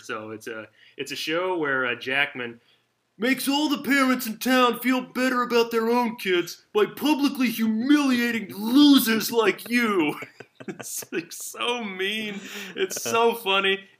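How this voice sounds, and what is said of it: Cartoon character impression. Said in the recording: “I'm going to do my McVicker impression here.”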